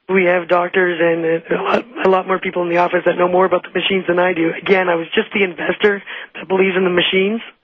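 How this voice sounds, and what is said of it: Voice not at its best. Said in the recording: “I'm so sorry about my voice.”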